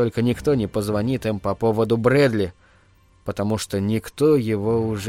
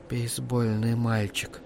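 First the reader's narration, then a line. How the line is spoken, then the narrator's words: Whisper. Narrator (Russian): прошептала она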